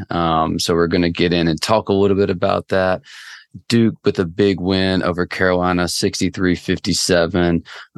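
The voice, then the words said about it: Hoarse, strained voice. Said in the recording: “If you can tell, my voice is absolutely destroyed.”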